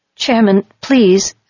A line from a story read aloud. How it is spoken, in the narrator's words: began unsteadily